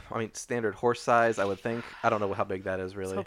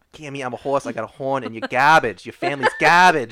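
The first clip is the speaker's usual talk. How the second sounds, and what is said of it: Put-on New York accent. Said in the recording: “That's what Little Sebastian sounds like... All unicorns have, like, weird, like, New York accents.”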